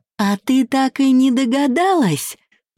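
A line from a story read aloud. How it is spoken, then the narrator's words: Exclaimed, hysterical laughter. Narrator (Russian): воскликнула она и, истерично расхохотавшись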